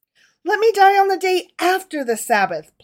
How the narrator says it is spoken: pleaded David

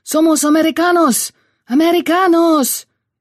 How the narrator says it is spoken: Joe put his arms up and yelled back

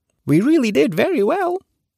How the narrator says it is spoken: cried the fairy in a pleased voice

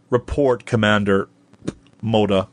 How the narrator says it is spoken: he said

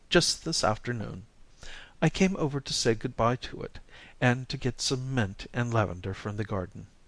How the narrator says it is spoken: said Daphne, with a small quaver in her voice

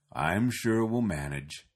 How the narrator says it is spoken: Petson mumbled

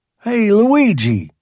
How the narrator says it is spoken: I hollers

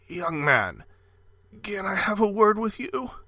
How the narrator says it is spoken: A voice quavered

